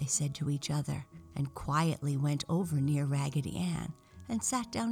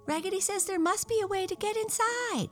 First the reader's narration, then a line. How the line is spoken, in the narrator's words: cried all of the dolls